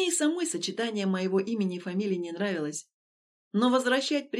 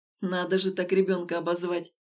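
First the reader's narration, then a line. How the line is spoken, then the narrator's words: Woman's scornful snort. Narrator (Russian): фыркнула женщина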